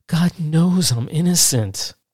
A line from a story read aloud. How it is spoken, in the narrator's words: Anna exclaimed